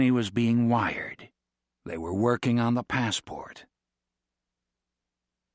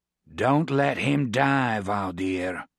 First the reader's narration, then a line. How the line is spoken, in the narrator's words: Josh growled from America